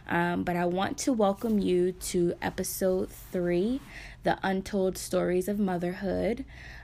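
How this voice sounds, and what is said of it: Sore-throated voice going in and out. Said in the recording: “excuse my voice. It might go a little in and out. I'm starting to come down with a cold or sore throat ... my throat is a little itchy”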